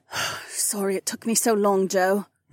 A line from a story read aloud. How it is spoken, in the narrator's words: muttered with her eyes squeezed tightly shut